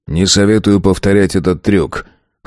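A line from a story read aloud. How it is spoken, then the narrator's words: Smirking snort. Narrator (Russian): хмыкнул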